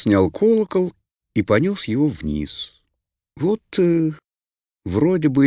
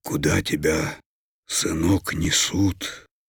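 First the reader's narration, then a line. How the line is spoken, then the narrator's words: Hoarse unrecognizable father's voice. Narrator (Russian): каким-то неузнаваемым, осипшим голосом спросил отец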